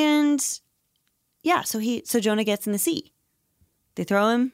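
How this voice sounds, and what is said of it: Usual voice. Nothing is said of it.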